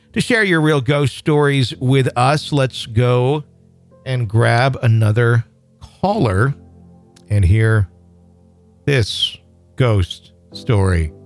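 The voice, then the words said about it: Speaking very slowly. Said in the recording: “I'm talking really slow”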